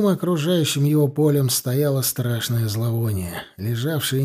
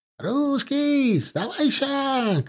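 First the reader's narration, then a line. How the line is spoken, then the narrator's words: Crowd shouting from afar. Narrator (Russian): кричали из-за завалов трупов персы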